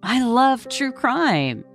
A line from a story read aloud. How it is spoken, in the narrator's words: she cried